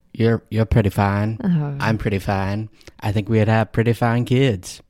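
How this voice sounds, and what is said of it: Put-on Southern American accent. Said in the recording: “I don't know why it's in a southern accent.”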